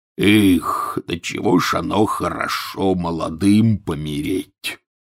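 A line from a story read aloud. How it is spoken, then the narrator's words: Sudden mutter. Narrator (Russian): пробормотал вдруг Хагрид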